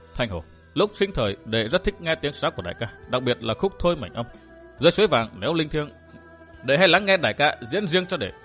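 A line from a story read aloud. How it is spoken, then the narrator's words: Soft voice. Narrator (Vietnamese): khẽ nói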